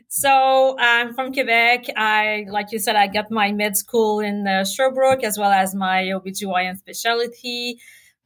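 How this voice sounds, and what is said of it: Quebecois French accent. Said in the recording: “my beautiful accent that I can lose? ... It's a gorgeous accent.”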